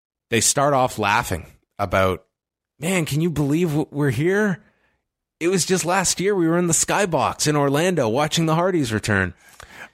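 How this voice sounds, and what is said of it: Surfer-style character voice. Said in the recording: “Are they both surfers? ... That was the vibe they were giving me here. Maybe I'm still in my TJP voice.”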